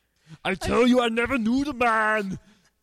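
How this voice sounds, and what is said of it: Arnold Schwarzenegger impression. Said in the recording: “That's a great Arnold... It truly is a great impersonation.”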